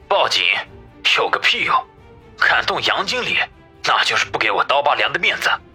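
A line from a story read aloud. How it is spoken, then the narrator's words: Deep, low-voiced question. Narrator (Chinese): 王宇沉声的问道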